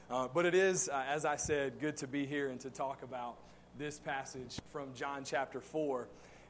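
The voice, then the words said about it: Southern US accent. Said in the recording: “originally from the South, so you will hear the accent”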